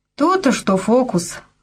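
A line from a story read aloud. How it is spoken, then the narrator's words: Snorting chuckle. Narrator (Russian): хмыкнул и Елькин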